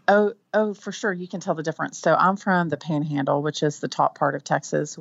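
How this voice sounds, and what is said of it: Texan accent. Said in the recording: “Texas accents”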